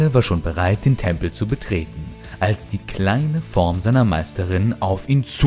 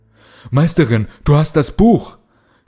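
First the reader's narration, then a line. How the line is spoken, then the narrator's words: Shouting while running. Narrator (German): schrie Kalle, als sie aus der Siedlung rannten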